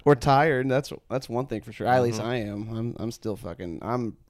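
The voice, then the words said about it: Hoarse, fading voice. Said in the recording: “my voice sounds like shit right now... A little bit of losing my voice”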